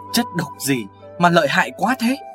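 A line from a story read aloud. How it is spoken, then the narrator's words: Trembling voice. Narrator (Vietnamese): Điền Thất giọng run run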